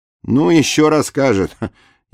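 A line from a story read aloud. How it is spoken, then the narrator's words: Chuckling. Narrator (Russian): Егор Иванович хохотнул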